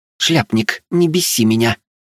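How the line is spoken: Angry grumble. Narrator (Russian): зло пробурчала Вилея

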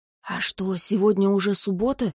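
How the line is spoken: Whispered question, guard. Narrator (Russian): шепотом поинтересовался левый страж у правого

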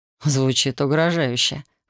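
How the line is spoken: Wry snort. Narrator (Russian): хмыкнул он

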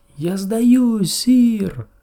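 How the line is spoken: Knight shouting. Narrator (Russian): закричал ему другой рыцарь

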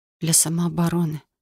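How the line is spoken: Quiet answer. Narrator (Russian): ответила тихо

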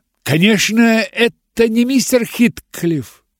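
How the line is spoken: Exclaiming. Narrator (Russian): воскликнула я

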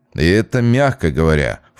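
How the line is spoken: Snorting. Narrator (Russian): фыркнул Вася

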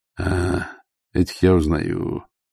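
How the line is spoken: Gloomy. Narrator (Russian): мрачно сказал Ваймс

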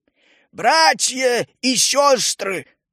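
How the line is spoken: Loud exclamation. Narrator (Russian): громко воскликнул Прок Рыжихвост

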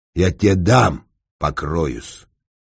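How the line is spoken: Snarl. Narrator (Russian): рыкнул на него будущник

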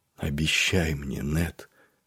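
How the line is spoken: Whisper from sickbed. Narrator (Russian): прошептала сестра со своего кровавого ложа

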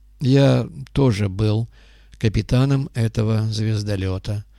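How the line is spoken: Gloomy, heavyset man. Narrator (Russian): мрачно сообщил грузный темнолицый человек

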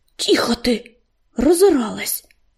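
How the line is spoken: Hissed. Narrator (Russian): прошипел он

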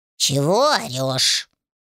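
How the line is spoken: Displeased cat grumbling, inner voice. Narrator (Russian): раздалось в голове недовольное ворчание кота

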